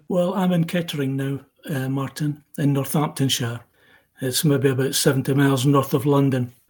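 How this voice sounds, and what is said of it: Scottish accent. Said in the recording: “Hence the Scottish twang. ... You haven't lost it at all”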